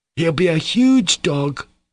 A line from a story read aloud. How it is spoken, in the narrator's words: cried one of the boys